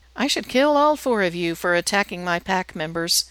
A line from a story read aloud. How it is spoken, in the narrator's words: she says, her tone friendly, conversational